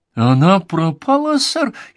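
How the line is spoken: Frightened cry, young woman. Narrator (Russian): испуганно, вскричала девица

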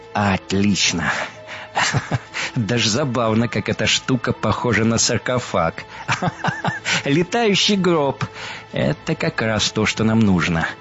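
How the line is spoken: Laughing. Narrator (Russian): Он рассмеялся

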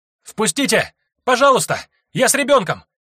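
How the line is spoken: Mother shouting desperately. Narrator (Russian): кричала мать

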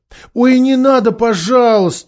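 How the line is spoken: Pleading. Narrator (Russian): взмолился Каспиан

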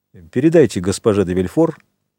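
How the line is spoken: Plain. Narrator (Russian): ответил он наконец

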